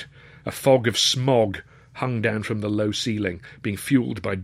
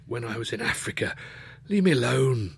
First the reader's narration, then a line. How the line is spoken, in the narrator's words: he groaned